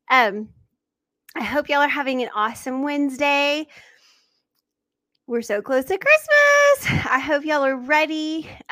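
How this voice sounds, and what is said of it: Slightly out of breath. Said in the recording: “I'm a little out of breath now ... I need to catch my breath here.”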